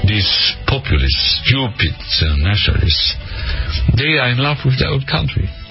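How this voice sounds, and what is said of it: Thick accent. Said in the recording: “could you catch it through that thick accent?”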